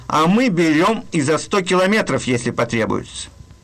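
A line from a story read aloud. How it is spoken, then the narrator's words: Cheerful remark. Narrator (Russian): пограничники ему весело заметили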